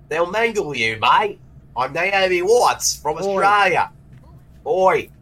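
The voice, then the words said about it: Put-on Australian accent. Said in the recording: “nobody speaks with an Australian accent other than me”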